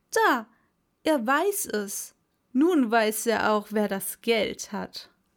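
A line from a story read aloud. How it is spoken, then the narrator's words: Called out. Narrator (German): rief er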